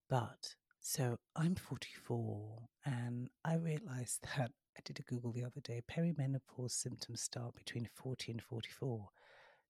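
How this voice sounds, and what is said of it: Speaking very quietly, hushed voice. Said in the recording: “I'm talking really low because my daughter's sleeping”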